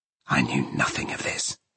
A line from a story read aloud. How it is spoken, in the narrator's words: he went on, in the same furious tone